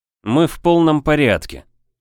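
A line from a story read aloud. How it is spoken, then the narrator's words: Dry. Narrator (Russian): сухо проговорил детектив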